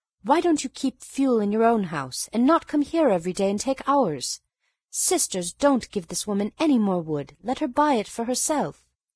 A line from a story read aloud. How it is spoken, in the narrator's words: Balna angrily said